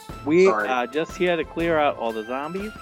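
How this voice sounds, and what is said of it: Put-on New York accent. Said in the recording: “Why do you have a New York accent again?”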